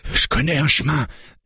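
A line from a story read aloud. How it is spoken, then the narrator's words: Said panting. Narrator (French): dit Carl en haletant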